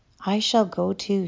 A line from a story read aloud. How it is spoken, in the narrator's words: she said softly